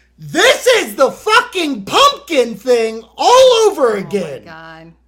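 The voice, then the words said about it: Yelling, angry rant. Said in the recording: “I'm not yelling at you. I'm yelling at the internet.”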